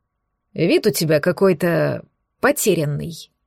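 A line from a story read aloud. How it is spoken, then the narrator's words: Grumbling. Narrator (Russian): пробурчал брюнет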